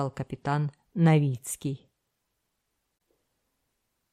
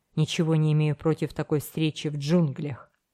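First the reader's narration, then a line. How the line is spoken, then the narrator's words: Plain. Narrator (Russian): ответил пират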